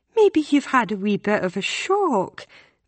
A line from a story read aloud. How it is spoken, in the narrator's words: the woman asks kindly